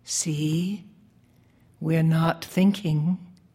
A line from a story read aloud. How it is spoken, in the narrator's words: I whispered in his ear